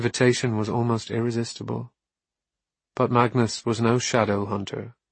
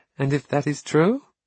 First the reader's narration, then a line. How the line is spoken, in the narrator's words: Camille asked, laughing